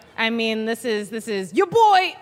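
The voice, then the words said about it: Loud, bad impression of another person. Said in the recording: “That was a terrible impression ... We love a bad impression ... all my impressions are just me loud or quiet. So that was just loud me”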